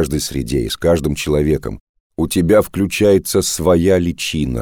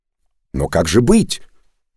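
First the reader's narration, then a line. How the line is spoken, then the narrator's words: Indignant young man's exclamation. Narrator (Russian): возмущенно воскликнул юноша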